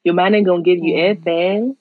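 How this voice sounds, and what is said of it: Put-on American accent. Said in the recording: “I'm not even American. ... let me just go back to my Manchester accent.”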